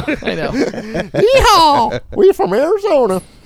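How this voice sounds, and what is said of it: Put-on Arizona country accent. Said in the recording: “I love people from Arizona that have an accent.”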